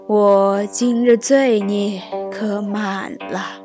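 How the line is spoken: Drunken sigh to himself. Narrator (Chinese): 拐子醉了，他自叹道

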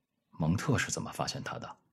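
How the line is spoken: Low voice. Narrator (Chinese): 美国人低声说，接着又加了一句

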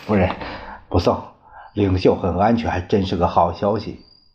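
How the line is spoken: Forced cheerfulness. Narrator (Chinese): 何应钦强颜欢笑，说道

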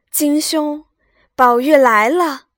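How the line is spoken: Hurried call. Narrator (Chinese): 宝玉忙叫道

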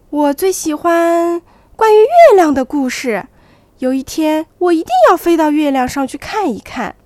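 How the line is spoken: Little owl calling out. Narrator (Chinese): 小猫头鹰喊道

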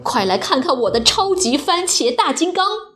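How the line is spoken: Excited shouting. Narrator (Chinese): 马文兴高采烈地嚷

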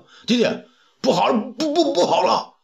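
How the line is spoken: Shouting in panic. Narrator (Chinese): 辛苦子进远大叫

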